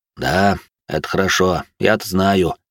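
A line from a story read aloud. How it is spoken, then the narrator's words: Booming drone. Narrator (Russian): прогудел Эрик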